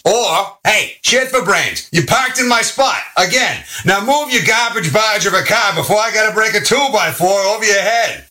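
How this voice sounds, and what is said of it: Put-on New York accent. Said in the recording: “the New York accent”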